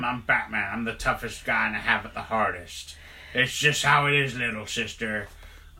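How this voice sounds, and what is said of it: Gruff Batman-style character voice. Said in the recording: “my Bat John impression”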